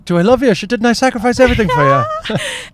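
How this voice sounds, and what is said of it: Put-on Irish accent. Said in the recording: “I do that in Irish accent”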